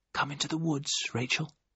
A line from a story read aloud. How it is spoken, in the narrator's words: I whispered